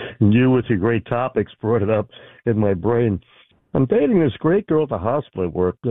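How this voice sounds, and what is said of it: Usual voice. Nothing is said of it.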